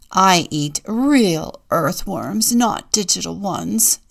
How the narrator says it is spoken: sneers Robin

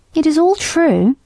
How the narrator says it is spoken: said Merrylegs, sadly

